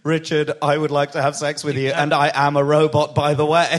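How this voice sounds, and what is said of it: Robot voice. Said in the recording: “If she said it in a voice like that ... that was like a robot voice”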